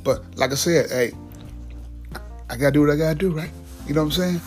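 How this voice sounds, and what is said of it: Voice sounding rough this morning. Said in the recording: “your voice is kind of terrible this morning”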